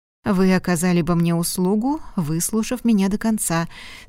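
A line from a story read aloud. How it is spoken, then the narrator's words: Conciliatory tone. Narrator (Russian): сказал примирительным тоном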